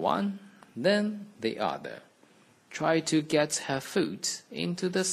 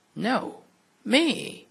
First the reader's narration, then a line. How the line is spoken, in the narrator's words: cried the other